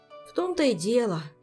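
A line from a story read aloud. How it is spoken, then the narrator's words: Sighing. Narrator (Russian): вздохнул пассионарио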